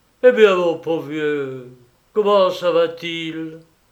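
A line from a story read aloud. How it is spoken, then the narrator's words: Groaning. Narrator (French): Il gémit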